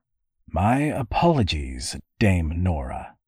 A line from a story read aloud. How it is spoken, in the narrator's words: Compton said in a dry, deliberate tone